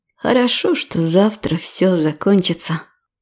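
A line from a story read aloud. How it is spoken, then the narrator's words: Quiet, joyless. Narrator (Russian): тихо проговорила она, но ни облегчения, ни радости по этому поводу не испытала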